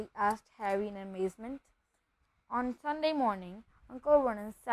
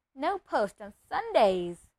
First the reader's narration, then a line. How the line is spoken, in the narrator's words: he reminded them cheerfully